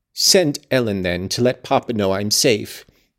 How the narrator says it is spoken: exclaimed Catherine, weeping bitterly

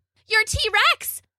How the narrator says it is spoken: Bella yelled at Rob

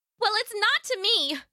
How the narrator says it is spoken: she yelled back

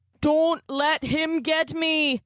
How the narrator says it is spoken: Connor cried

